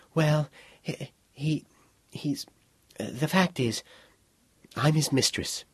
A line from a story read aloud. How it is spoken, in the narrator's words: After a pause, Charisse said falteringly